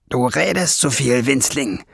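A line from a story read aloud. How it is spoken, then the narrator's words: Hissing snarl. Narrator (German): fauchte Schwefelfell ihn an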